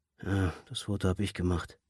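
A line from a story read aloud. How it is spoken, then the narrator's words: Absent-minded murmur. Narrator (German): murmelte er gedankenverloren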